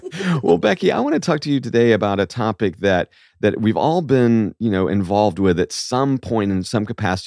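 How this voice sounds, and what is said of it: Froggy, hoarse voice. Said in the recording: “you're a little bit of a froggy voice this morning because the allergies”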